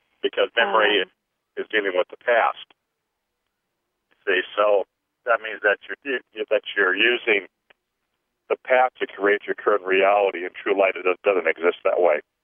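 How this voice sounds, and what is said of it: Strained, failing voice. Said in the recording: “my voice is kind of going out a little bit.”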